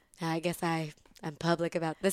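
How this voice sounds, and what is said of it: Kim Cattrall impression. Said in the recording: “my Kimmy Cattrall impression ... I love it. It's really good.”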